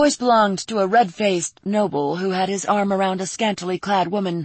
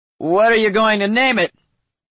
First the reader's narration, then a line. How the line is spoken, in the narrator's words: a voice called out, slurring the words